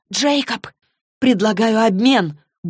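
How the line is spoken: Quick interjection. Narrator (Russian): Быстро вмешалась Клэри

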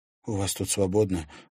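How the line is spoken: Timid question. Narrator (Russian): робко спросила девушка

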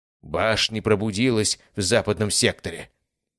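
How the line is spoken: Hissed. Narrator (Russian): Прошипел один из них

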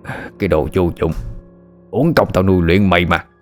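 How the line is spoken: Old man roaring. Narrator (Vietnamese): lão gầm lên

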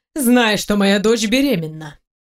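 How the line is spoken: Cold voice. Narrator (Russian): Холодно прозвучало

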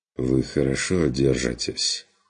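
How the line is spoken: Understanding sigh. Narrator (Russian): вздохнул фон Люфтенхаймер с пониманием

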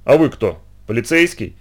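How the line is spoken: Snapping back. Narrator (Russian): огрызнулся он в ответ

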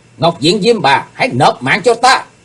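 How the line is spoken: Shout. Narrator (Vietnamese): Tiếp theo tiếng hét, Chí Tôn

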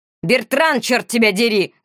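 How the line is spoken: Shout. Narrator (Russian): закричал Моро

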